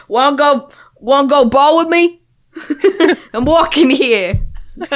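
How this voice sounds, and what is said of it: Put-on New York accent. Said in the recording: “it's like a New York accent.”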